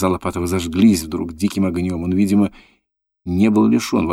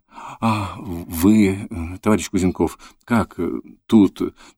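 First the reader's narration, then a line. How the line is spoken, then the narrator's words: Muttering. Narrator (Russian): забормотал он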